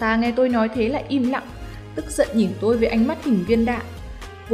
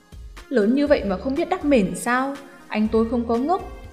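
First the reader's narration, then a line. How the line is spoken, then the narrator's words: Gruff irritable tone. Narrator (Vietnamese): Giọng điệu Lục tiểu đệ trước sau vẫn cộc cằn cáu kỉnh nói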